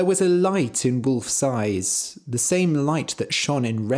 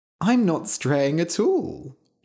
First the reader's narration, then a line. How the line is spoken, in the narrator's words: she said playfully